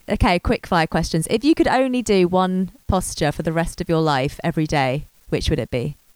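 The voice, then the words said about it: Slightly hoarse, sore-throated voice. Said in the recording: “I've got a bit of a sore throat.”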